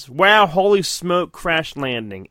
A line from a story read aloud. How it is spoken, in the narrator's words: Andy says